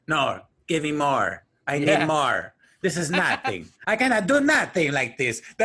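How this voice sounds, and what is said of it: Imitates a fortune teller's accent. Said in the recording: “That accent she had was so like.”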